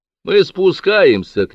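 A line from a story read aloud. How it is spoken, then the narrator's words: Shouted. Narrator (Russian): крикнул Боск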